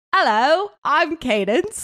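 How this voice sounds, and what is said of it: Put-on accent. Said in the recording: “let's try an accent ... I totally changed my accent.”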